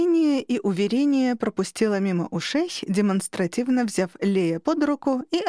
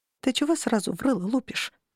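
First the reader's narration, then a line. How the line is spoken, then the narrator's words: Quiet question. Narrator (Russian): тихо спросила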